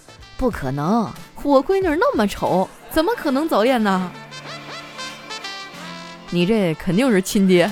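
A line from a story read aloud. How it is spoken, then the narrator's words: Laughing. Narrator (Chinese): 我爸呀，当着办公室全体老师的面笑了好几声，然后说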